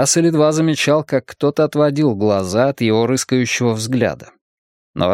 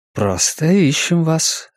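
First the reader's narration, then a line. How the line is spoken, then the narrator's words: Soft. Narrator (Russian): ответил один из них мягко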